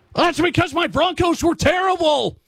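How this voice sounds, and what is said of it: Yelling. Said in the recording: “sorry for yelling”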